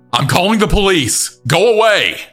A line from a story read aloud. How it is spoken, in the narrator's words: gulped shouted through the door